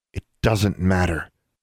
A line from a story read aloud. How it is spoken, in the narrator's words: she reminded herself firmly